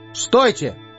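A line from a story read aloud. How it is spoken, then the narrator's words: Shouted. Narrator (Russian): крикнул он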